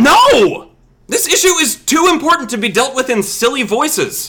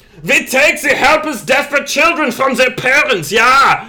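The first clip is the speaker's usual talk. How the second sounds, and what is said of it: Put-on German accent. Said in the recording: “Maybe I should use a German accent.”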